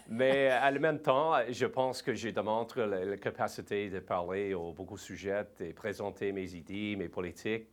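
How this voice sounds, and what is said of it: Slight English-speaker accent in French. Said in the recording (French): “je suis un anglophone, je, n'ai pas l'accent comme un euh, une vraie francophone au Québec, un Québécois ... j'ai un petit accent euh, comme un blué”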